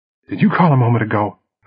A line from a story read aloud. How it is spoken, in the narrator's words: gasped